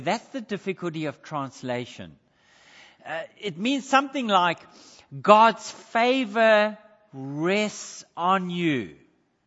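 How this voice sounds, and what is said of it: South African accent. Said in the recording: “I know my accent is still South African.”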